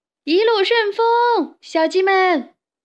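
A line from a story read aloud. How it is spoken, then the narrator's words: Excited shouting. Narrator (Chinese): 三个小伙伴兴奋地大叫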